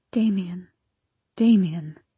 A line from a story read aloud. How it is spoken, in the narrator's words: my mama had whispered then, her voice choked with emotion